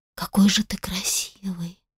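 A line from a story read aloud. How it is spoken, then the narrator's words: Admiring whisper. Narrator (Russian): прошептала Сара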